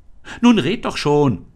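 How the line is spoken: Called out. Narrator (German): rief Anne

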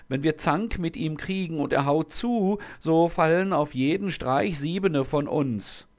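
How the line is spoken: Wailing. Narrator (German): jammerten

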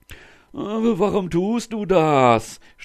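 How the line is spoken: Groaning in pain. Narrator (German): stöhnte der Sultan vor Schmerzen

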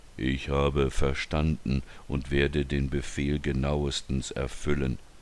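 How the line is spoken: Robotic toneless voice. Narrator (German): sagte der Ritter nun wieder ganz roboterhaft tonlos

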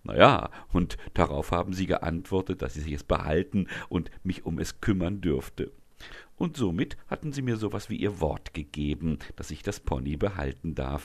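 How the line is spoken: Proud explanation. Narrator (German): erklärt Leonie stolz

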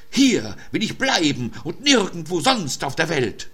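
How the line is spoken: Wild scream. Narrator (German): schrie sie wild

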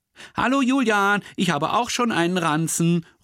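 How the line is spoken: Called from far away. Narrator (German): ruft sie schon von Weitem

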